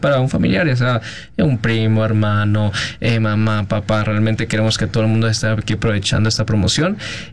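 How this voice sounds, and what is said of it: Colombian Spanish accent. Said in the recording (Spanish): “Traes el acento colombiano ... Traes el acento”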